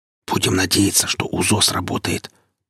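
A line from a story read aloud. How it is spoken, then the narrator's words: Whispered. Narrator (Russian): прошептал Гриф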